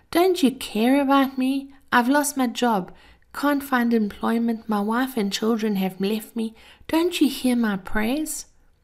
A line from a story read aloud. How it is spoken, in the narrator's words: moaned